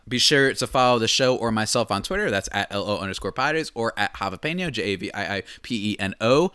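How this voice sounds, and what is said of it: Talking very fast. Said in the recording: “Sorry if I'm talking so fast, by the way. I've been told to slow down”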